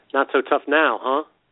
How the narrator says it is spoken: Salazar laughed

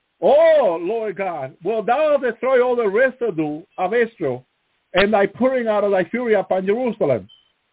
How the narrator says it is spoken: cried and said

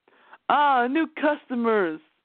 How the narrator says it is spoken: Noel exclaimed

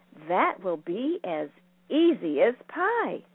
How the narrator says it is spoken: Winka happily replied

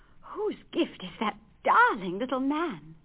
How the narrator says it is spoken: cried Marie

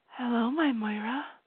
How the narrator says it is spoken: she said softly

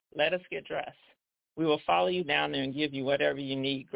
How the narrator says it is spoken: Gregory said

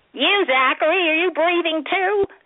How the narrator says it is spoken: Zach's voice squeaked

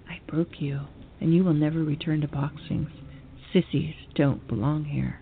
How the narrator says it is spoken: he leaned in and whispered into my pale white ear

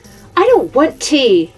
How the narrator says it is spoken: shouted Mrs

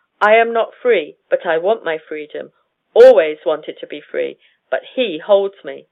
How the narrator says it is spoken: she repeatedly said distinctly and firmly

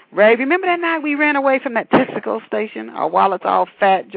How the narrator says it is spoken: Joy laughed

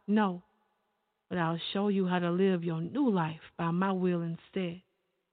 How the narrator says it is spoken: he calmly replied

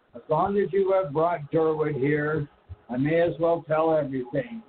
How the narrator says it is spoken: he said with a sigh of remorse

